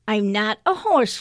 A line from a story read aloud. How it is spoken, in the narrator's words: Flora said with a giggle